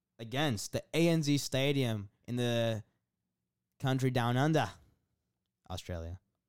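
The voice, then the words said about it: Put-on Australian accent. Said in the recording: “That was a fantastic accent.”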